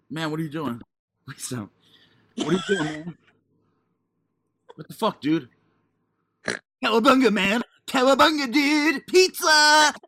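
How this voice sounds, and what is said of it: Cartoon surfer-dude turtle voice. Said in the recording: “You sound like Michelangelo. ... From the Turtles? ... That's literally what you sounded like.”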